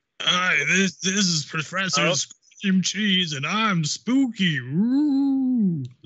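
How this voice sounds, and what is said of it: Spooky character voice. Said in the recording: “my impression of Professor Scream Cheese”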